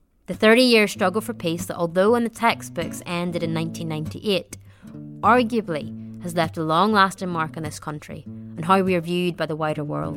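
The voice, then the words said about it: Northern Irish accent. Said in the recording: “a Northern Irish accent ... my vowel sounds”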